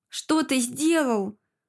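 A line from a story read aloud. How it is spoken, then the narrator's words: Hissing through teeth. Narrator (Russian): Зашипела сквозь зубы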